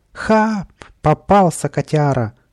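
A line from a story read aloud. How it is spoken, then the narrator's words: Joyful squeal. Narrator (Russian): радостно взвизгнул Каприска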